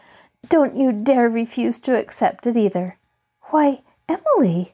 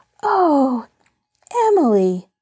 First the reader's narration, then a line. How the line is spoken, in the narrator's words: Nancy gasped in delight